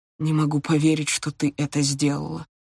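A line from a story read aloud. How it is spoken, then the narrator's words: Quiet repetition. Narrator (Russian): тихо повторил другой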